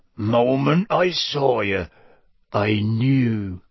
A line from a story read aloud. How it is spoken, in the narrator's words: he was saying in an oddly husky voice